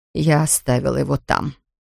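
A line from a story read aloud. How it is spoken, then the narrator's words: Quiet. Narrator (Russian): тихо проговорила Ферн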